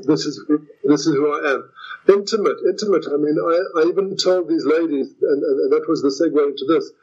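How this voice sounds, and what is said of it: South African accent. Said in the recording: “I don't practice being a South African. I am one. I don't practice my accent”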